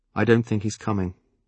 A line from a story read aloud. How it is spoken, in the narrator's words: I said quietly